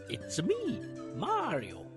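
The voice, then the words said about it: Poor Mario voice impression. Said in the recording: “terrible impression”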